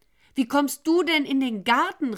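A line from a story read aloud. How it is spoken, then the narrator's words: Woman calling out. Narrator (German): rief sie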